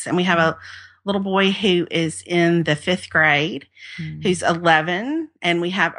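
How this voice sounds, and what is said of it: Southern US accent. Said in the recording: “I'm sure you can't tell by my accent ... I've lived in the Deep South my whole life. I grew up in Mississippi”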